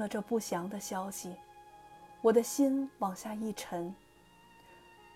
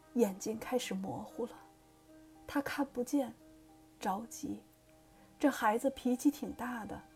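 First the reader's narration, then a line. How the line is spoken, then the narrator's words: Trembling elderly woman's voice. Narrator (Chinese): 他的外婆，老人声音颤抖的告诉我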